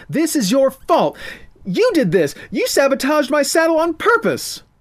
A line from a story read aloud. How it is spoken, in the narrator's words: The sounds of laughing infuriated the slop-covered girl, and she screamed